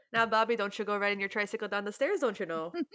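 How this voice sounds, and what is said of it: Strong put-on Minnesota accent. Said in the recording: “I can do a pretty mean Minnesota accent ... it's a strong one”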